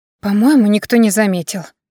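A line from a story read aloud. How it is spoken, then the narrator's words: Relieved exhale. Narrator (Russian): с облегчением выдохнула Ирма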